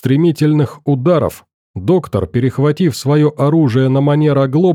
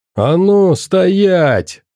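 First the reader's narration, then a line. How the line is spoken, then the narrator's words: Roaring shout. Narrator (Russian): взревел он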